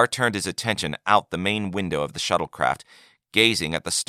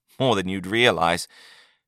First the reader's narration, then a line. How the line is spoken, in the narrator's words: said Yagar with a chuckle